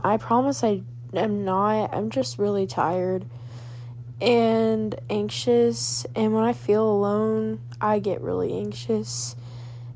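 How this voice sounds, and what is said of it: Sad, tired-sounding voice. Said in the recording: “I sound really sad”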